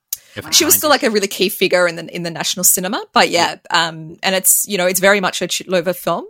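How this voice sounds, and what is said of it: Thick Australian accent. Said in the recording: “that thick Australian accent? ... I'm Australian.”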